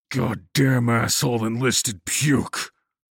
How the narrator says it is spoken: he snarled

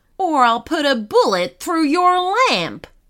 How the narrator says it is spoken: shouted menacingly

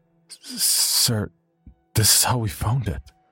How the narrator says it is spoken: one of them muttered, feeble and pale

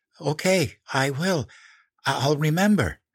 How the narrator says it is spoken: I gasped

